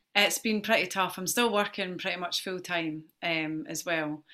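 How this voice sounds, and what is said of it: Emotional, strained speaking voice. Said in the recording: “Getting emotional.”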